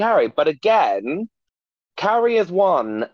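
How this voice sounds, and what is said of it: Usual voice. Nothing is said of it.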